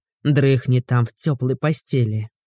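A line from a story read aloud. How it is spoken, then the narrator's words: Grumbling. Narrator (Russian): проворчал Игорь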